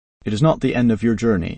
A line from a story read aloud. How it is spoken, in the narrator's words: it said